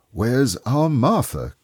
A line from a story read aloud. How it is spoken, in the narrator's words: cried Bob